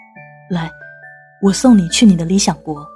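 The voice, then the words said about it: Quiet, murmured whisper. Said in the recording (Chinese): “小声的低语”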